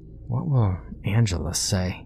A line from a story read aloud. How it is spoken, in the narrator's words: he muttered to himself